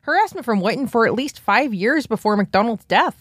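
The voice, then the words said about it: Put-on Fargo North Dakota accent. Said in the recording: “it's better in a North, in a fucking Fargo accent”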